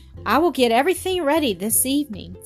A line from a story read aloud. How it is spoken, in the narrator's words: said Doris eagerly